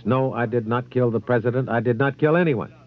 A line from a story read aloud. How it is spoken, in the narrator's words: Oswald replied in a loud voice